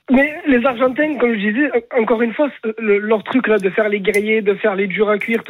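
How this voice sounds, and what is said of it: Southern French accent. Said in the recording (French): “ton accent du Sud”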